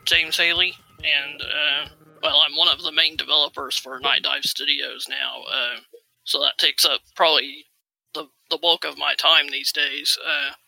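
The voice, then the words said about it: Slight Southern American accent. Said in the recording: “I detected a bit of a southern accent.”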